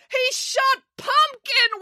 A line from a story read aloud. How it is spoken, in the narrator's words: wailed April